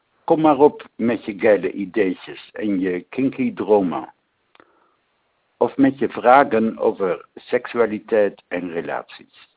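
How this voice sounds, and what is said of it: Correct Dutch with French accent. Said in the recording (Dutch): “Ik spreek dus correct Nederlands, maar met een Frans accent.”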